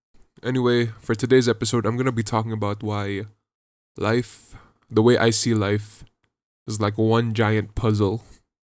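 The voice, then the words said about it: Congested, sick-sounding voice. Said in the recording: “I am still sick... I can't breathe properly... my voice sounds sounds bad, sounds very congested”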